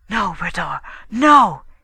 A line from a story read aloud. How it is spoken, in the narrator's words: he whispered, again panic-stricken